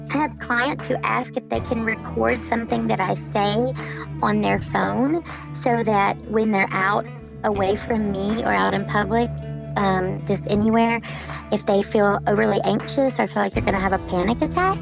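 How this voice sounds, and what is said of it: Comforting Southern accent. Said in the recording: “my accent is comforting to them”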